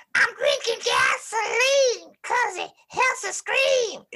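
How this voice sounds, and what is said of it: Imitates another person's voice. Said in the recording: “I can do his voice ... That was pretty good. That was pretty freaking good.”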